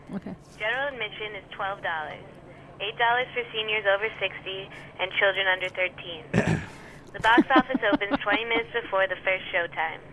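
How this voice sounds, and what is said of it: Odd accent, possibly Boston. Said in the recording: “This is an odd accent that she has, isn't it? ... Is she from Boston?”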